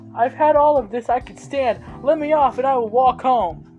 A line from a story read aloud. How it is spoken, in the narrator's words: Buddy shouted over his shoulder